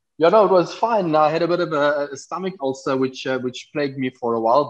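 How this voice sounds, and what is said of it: South African accent. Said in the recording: “if you guys hear that accent, yes, he is African. He's from South Africa.”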